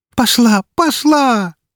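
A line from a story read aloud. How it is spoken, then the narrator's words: Joyful shout. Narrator (Russian): закричала радостно прыгающая Рокси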